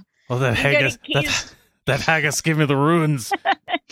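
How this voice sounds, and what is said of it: Put-on Scottish accent, old man. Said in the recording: “Like I'm Scottish ... You sound like a grandpa.”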